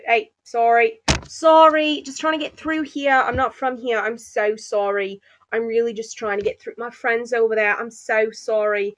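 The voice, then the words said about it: Put-on Australian accent. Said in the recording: “I put on my Australian accent”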